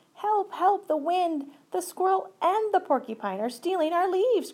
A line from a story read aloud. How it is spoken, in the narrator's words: cried Fletcher